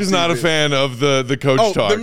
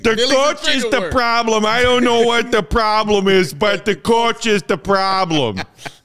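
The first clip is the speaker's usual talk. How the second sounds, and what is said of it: Imitates a Chicago sports fan. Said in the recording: “me being a Chicago fan ... impersonating a Chicago fan”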